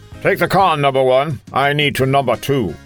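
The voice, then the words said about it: Patrick Stewart impression. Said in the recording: “What was that voice thing you just did? ... Why are you saying that so weird? ... I'm imitating Patrick Stewart.”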